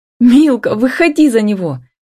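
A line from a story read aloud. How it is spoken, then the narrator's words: Sudden uncontrolled cry. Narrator (Russian): не выдержав, вскрикнула Ева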